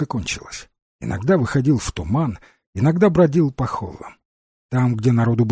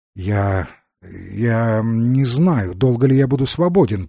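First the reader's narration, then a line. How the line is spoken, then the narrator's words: Mumble. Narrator (Russian): промямлил Стоун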